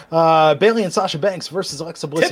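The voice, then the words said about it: Announcer-style radio voice. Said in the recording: “doing my radio voice”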